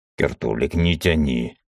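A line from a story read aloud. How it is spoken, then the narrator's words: Angry. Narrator (Russian): сердито сказал Мизраил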